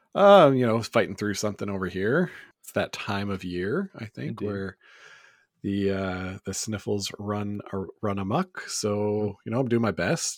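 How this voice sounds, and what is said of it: Raspy, worn voice from a cold. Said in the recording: “Hope I don't sound too raspy or anything ... my voice might be a little worse for wear”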